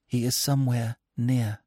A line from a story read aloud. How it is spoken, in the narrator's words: whispered